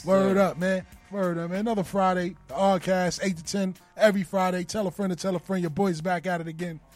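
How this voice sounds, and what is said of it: Slightly hoarse voice. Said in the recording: “Excuse my voice today. It's a little hoarse”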